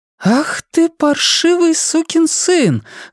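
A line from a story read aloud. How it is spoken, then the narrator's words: Surprised exclamation, slightly angry. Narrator (Russian): воскликнула она в пустом гостиничном номере, скорее удивленно, чем со злостью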